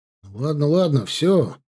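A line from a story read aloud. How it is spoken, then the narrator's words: Embarrassed mumble. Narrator (Russian): пробормотал он в смущении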